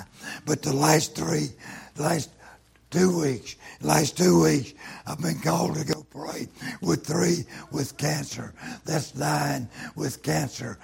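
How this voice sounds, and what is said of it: Hoarse, damaged voice. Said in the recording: “My cancer in my throat, and I've lost my voice.”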